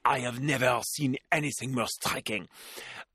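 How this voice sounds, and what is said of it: Put-on French accent. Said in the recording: “I should do that with a French accent.”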